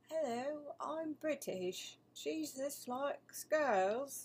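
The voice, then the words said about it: Put-on British accent. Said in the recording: “I could try British”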